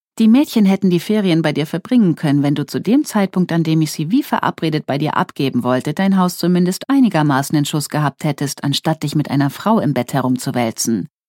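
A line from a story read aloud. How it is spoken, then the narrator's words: Sharp. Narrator (German): sagte sie scharf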